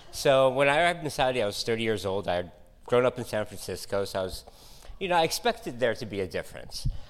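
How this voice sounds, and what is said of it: American accent. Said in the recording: “I grew up in the States for the most part. You could probably hear it in my voice, well, my accent.”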